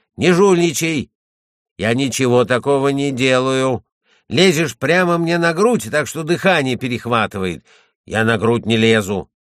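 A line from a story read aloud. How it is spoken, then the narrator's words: Shout. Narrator (Russian): Анти крикнул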